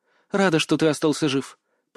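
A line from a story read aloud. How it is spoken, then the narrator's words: Trembling female voice. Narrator (Russian): произнесла она дрожащим голосом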